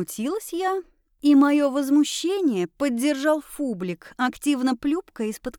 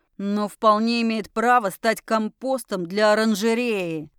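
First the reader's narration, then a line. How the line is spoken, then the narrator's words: Offended growl. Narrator (Russian): рыкнул он оскорбленно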